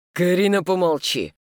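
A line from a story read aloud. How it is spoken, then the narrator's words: Barked. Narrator (Russian): рявкнул мой муж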